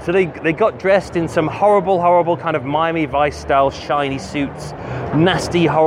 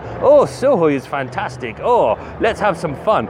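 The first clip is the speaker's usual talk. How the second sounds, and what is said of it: Put-on Russian accent. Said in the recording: “That's my Russian accent.”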